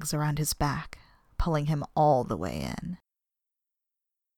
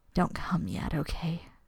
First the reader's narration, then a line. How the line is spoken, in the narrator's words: she murmured into his ear